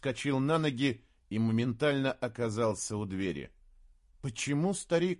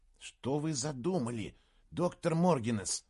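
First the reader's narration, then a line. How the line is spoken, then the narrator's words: Whisper. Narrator (Russian): прошептал Саймон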